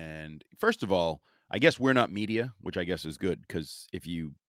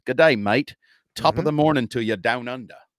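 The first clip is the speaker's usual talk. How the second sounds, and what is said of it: Mock Irish and Australian accent. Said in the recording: “That was Irish and Australian. ... And kind of English.”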